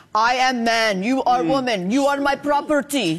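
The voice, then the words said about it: Put-on Russian-sounding accent. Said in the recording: “Very good, ... Roman accent, by the way. ... Apparently Rome was Russia.”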